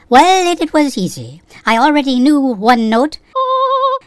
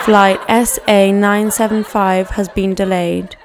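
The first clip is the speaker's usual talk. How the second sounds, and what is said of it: Put-on British accent. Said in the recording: “I had to learn to speak with a British accent”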